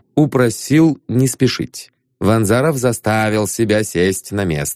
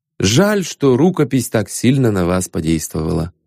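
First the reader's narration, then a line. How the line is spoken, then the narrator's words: Plain. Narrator (Russian): сказал Ванзаров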